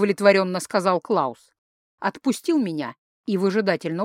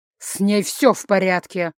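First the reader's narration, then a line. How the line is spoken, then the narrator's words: Angry reply. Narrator (Russian): зло ответил Клаус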